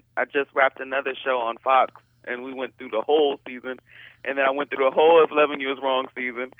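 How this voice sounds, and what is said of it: Washington DC accent. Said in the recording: “do I hear DC in there, in your voice? ... in your accent? ... I'm definitely a DC girl”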